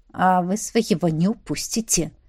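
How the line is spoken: Contemptuous snort. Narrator (Russian): хмыкнул герцог презрительно

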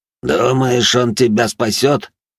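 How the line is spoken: Through clenched teeth. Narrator (Russian): сквозь зубы процедил Батиста

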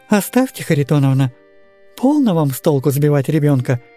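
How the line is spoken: Dry curt interruption. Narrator (Russian): довольно сухо оборвала ее Анфиса Дмитриевна

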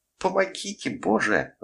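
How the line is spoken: Shriek. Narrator (Russian): взвизгнула Катерина

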